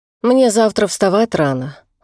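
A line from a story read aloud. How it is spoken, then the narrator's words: Sigh. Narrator (Russian): вздохнула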